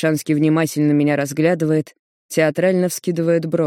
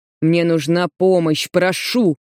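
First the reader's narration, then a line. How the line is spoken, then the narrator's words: Strained through gritted teeth. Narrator (Russian): С трудом цежу сквозь зубы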